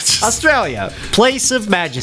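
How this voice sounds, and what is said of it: Put-on Australian accent. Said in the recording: “please do this accent the whole time”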